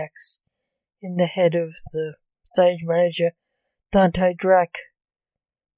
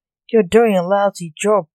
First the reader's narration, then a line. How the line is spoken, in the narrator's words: Blake snapped